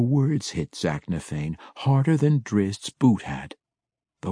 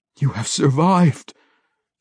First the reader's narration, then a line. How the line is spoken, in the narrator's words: Zack said, his voice broken by muffled tears